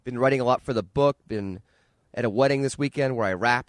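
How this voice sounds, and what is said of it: Raspy, hoarse voice. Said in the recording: “as you can tell from my voice. It's a little raspy and hoarse.”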